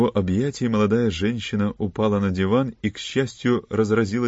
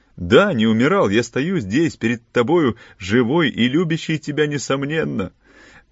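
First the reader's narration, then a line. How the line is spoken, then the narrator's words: Exclaimed. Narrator (Russian): воскликнул Филипп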